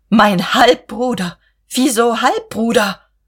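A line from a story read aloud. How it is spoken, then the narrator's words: Soft gasping. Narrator (German): keuchte Guste leise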